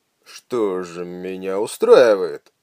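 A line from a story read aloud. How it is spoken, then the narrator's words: Approving grunt. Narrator (Russian): одобрительно буркнул Симс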